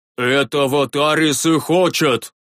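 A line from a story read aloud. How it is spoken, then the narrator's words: Angry old man barking. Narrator (Russian): рявкнул рассерженный седой старик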